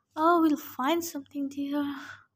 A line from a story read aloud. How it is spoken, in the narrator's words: my mother sighed